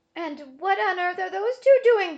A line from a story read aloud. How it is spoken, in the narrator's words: Bismarck wailed